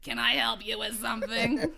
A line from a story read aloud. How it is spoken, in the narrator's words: She said in an impatient, raspy voice